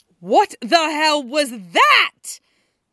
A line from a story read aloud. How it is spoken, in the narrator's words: Hana shrieks as soon as she can find the breath